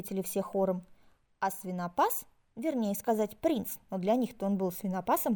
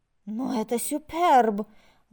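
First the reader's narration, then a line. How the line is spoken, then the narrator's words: Exclaimed in French. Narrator (Russian): воскликнула принцесса по-французски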